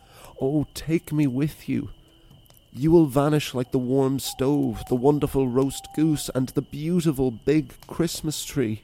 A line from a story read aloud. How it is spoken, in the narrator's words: cried the child